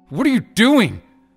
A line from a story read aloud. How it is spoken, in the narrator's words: Bryson shrieked